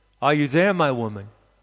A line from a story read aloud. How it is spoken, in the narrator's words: he asks